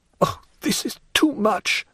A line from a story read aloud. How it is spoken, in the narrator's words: cried Hermine, choking